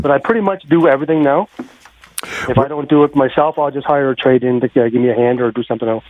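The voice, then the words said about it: Nova Scotian accent. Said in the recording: “I'm originally from Nova Scotia. ... I recognize the accent. ... this guy is not from Edmonton originally.”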